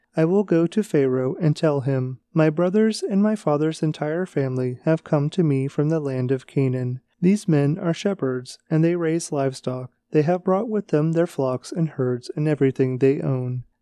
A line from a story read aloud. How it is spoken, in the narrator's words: he said